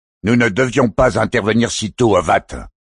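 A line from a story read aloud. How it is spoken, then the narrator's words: Growling voice. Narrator (French): gronda une autre voix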